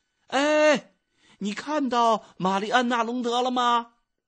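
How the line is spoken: Loud question. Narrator (Chinese): 埃米尔高声的问

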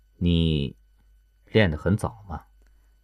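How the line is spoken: Resigned sigh, flat tone. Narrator (Chinese): 官职无奈的叹了口气，淡淡开口道

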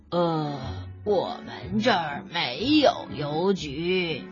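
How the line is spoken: Slow reply. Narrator (Chinese): 北极熊慢吞吞的回答说

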